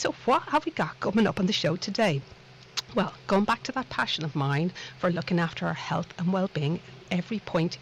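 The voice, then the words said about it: Irish Dublin accent. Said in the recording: “this little accent of mine, no, it's not from the lovely town of Liverpool. I like to think it's from an equally lovely town called Dublin across the Irish Sea”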